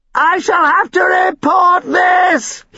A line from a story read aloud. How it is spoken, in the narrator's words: he called out